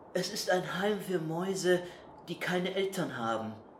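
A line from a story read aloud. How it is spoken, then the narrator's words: Quiet. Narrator (German): sagte leise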